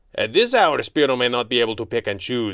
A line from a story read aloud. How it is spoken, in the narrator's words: he said with a snort